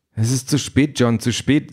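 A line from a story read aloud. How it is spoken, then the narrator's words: Plain. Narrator (German): sagt Aisha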